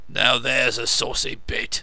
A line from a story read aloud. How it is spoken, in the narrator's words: rumbled the coachman